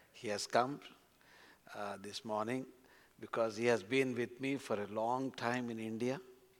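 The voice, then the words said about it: Non-native English accent. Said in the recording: “I hope you understand my accent.”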